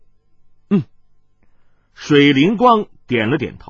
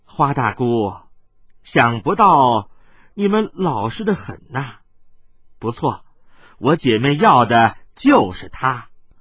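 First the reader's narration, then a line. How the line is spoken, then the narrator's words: Smiling young woman. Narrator (Chinese): 锦衣少女却含笑说道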